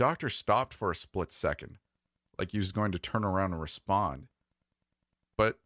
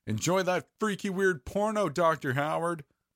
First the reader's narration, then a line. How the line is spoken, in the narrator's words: Jerry screamed out at the top of his lungs